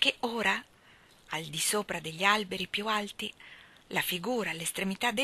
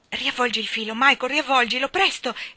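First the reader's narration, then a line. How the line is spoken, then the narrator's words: Exclaiming. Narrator (Italian): esclamò Jane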